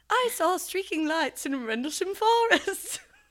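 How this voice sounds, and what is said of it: Failed attempt at East Anglian accent. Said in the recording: “I'll try and say it in a British accent, and then I'll say it in a British, in an East British accent ... That's not right ... No, I don't think that's the East English accent ... East Anglican.”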